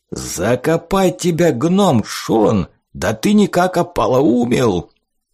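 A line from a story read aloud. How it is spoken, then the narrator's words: Angry growl. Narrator (Russian): Зарычал пивной бочонок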